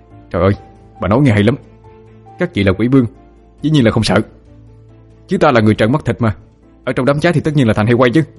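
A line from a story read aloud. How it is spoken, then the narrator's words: Furious shout. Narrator (Vietnamese): Trong lòng Phượng đã điên cuồng chửi rủa, miệng quát lên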